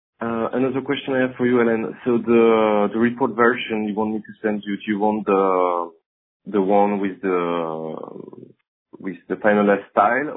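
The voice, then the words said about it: Muffled voice with French accent. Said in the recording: “your voice is just a little bit muffled today, so I'm having trouble ... your romantic French accent”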